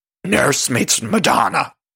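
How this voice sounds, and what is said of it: Cookie Monster-like Luann impression. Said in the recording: “my Luann impression ... My Cookie Monster Luann impression”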